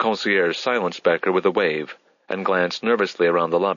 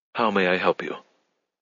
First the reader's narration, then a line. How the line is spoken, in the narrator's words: Becker began again, lowering his voice